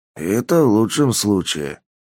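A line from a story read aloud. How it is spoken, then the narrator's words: Grumbled. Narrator (Russian): буркнул Полос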